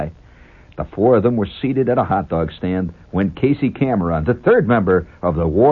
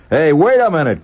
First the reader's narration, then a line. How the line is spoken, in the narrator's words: cried Scotty